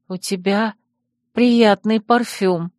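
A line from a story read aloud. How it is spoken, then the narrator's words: Drawn-out drawl. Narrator (Russian): протянула я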